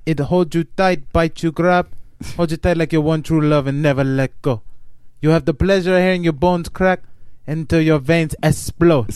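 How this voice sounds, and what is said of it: Bad fake Brazilian accent. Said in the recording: “John Voight's fake Brazilian accent from Anaconda ... It was so bad in Anaconda.”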